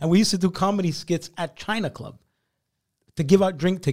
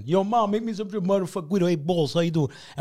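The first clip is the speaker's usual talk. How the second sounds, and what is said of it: Italian-American New York accent imitation. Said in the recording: “He's my Jewish friend who sounds Italian from Coney Island.”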